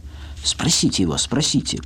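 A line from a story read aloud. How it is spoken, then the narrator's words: Triumphant whisper. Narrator (Russian): прошептала Люся, предчувствуя свое торжество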